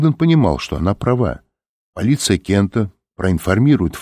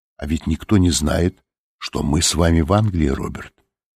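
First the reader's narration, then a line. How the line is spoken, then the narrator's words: Quiet remark. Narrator (Russian): тихо заметила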